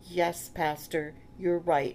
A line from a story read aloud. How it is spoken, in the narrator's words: she said